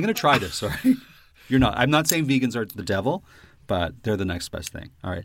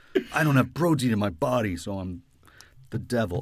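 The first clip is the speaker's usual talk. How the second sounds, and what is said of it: Mock really deep voice. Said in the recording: “That's how vegans talk with a really deep voice.”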